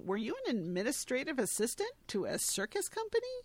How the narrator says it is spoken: he asks, chuckling

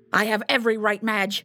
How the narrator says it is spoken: Reynolds spat

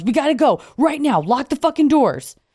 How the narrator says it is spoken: our friend Harry rushes out to the car and yells

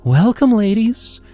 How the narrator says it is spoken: Leela chirped, her voice syrupy sweet

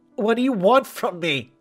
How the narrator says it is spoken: asked, her voice trembling with fear

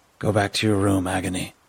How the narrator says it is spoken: Agony's mother grunted

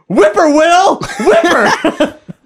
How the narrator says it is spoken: they'd run around screaming

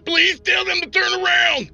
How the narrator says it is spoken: Dante screamed

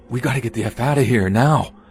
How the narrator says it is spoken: I told E in a hushed but anxious tone

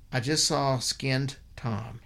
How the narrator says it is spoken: he said

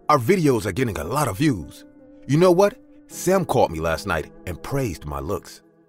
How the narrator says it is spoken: Lily said in an excited voice

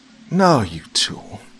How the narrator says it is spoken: Katie's brother sighed

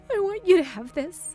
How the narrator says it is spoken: she sobbed

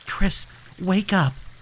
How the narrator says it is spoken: I whispered, my voice trembling

